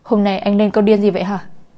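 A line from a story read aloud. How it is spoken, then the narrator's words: Angry question. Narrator (Vietnamese): Phù Dung tức giận mà hỏi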